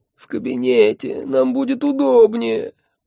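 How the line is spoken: Groan. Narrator (Russian): простонал он

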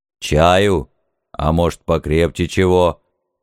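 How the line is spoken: Deep bass question. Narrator (Russian): Густым басом осведомился святой отец

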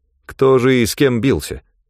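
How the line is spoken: Grim smirk. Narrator (Russian): Ганилон мрачно усмехнулся

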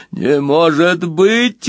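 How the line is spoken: Howling. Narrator (Russian): взвыл Красвин

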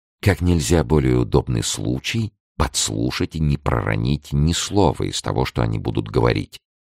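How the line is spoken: Whispered reply. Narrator (Russian): прошептал в ответ Арамис

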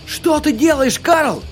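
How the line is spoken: Yelled. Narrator (Russian): заорал О'Мейра

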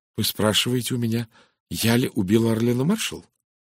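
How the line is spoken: Quiet, even voice. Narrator (Russian): Тихим ровным голосом произнесла она

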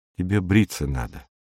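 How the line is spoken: Whisper. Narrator (Russian): шепнула она

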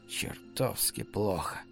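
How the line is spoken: Hoarse. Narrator (Russian): сказал Стив хрипло

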